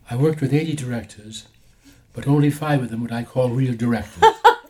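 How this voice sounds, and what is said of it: Imitates another person's voice. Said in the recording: “That's a great impression.”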